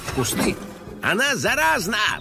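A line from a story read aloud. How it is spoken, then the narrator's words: Disgusted shout. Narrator (Russian): брезгливо крикнул детектив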